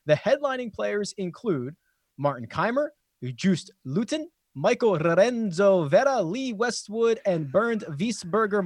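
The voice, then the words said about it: Attempted European accent on names. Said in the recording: “Points for the accent attempt ... you did pretty well”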